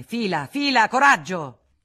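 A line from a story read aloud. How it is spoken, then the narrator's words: Shouting. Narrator (Italian): Federico gridò al postiglione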